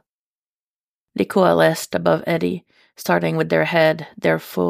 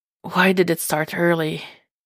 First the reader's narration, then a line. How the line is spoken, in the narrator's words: He breathed